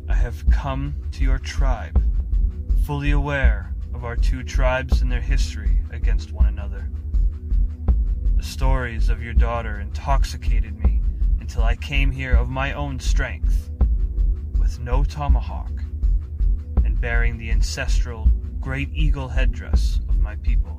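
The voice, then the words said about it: Deep-voiced chief character. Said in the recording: “the deep voice of a rival chief”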